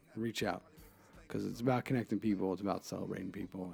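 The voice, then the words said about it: Raspy radio voice. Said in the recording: “raspy radio voice”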